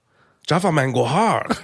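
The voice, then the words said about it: Put-on Asian accent. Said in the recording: “say that title in your best Asian voice”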